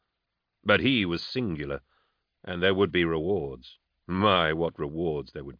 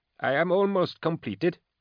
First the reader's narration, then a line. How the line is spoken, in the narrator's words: he said